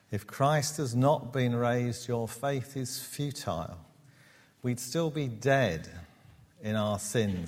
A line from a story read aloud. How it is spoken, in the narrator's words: he says